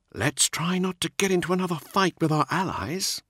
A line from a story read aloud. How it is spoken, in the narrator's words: he said quietly